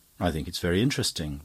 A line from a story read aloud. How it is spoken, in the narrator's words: replied Father Brown